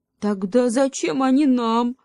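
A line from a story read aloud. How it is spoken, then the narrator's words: Wife asking gloomily. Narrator (Russian): мрачно спросила жена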